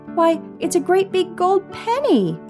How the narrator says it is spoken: Irene cried

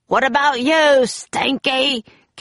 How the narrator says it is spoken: Cap'n Bones roared

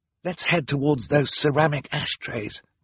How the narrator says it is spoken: Violet whispered

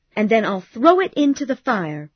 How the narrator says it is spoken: she cried

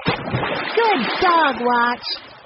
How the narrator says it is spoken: Jessie yelled

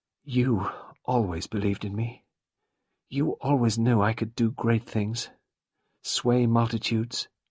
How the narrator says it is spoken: She murmured

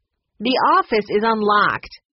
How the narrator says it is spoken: Courtney shouted at Tipper

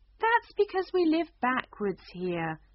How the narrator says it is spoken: explained the Queen kindly

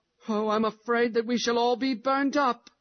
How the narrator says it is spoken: said John, beginning to whimper

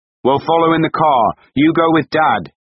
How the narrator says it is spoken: Miles shouted at Shirley

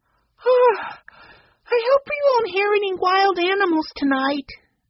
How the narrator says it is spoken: Benny said sleepily

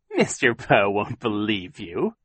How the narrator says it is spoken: Captain Sham said, chuckling

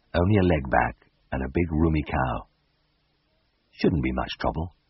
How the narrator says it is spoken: Far away inside me, a stone, cold, sober veterinary surgeon murmured

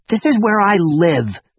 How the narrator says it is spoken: spat back at her

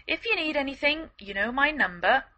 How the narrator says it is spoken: called out Black

